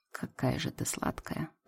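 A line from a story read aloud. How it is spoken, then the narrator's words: Whispered. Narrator (Russian): прошептал он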